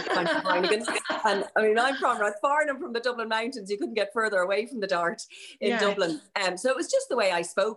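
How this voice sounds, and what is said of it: Posh south Dublin Irish accent. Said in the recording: “a Placeless Accent ... defend my accent. They said that it was the new Dort accent”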